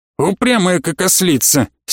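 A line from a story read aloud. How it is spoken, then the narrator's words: Angry snort. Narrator (Russian): сердито фыркнул Георг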